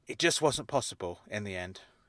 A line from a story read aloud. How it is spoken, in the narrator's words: he said quietly